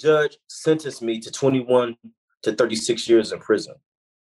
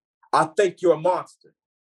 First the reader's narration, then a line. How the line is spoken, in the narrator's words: he yelled